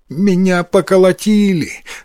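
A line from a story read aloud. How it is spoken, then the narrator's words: Sobbing reply. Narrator (Russian): рыдая, ответил Йотаро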